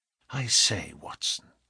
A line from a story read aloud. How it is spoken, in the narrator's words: he whispered